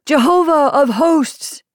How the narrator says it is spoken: he cried

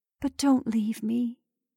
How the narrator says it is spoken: she whispered

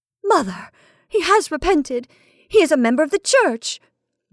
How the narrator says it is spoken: Melissa cried out with sudden sharpness

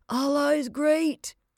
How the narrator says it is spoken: he gasped cheerfully

